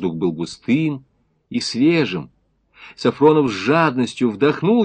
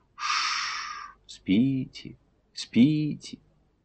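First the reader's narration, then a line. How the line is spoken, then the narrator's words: Lulling whisper. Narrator (Russian): убаюкивающий шепоток, будто говорил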